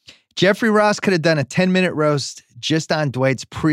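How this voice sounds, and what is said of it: Usual voice. Nothing is said of it.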